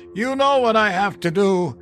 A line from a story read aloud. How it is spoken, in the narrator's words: He yelled